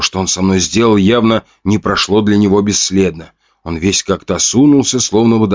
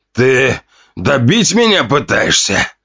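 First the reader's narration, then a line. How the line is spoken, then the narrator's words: Pained hiss. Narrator (Russian): зашипел он после сдавленного вздоха боли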